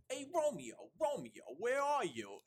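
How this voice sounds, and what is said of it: Put-on Brooklyn accent. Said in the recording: “everyone do Brooklyn accent.”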